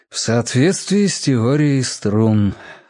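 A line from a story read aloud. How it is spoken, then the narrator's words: Sighing. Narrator (Russian): вздохнул Володя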